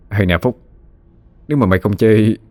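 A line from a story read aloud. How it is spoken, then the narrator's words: Smirking mocking tone. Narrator (Vietnamese): Phong nhếch mép nói với Phúc với giọng điệu cợt nhã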